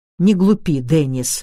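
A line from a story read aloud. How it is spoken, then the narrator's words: Irritated. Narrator (Russian): раздраженно произнес я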